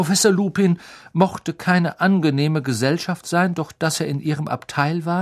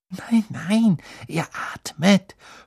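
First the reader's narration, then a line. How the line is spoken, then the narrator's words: Whispered. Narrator (German): flüsterte Hermine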